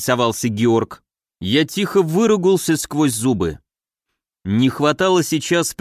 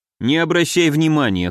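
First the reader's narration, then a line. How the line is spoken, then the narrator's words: Snorting chuckle. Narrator (Russian): хмыкнул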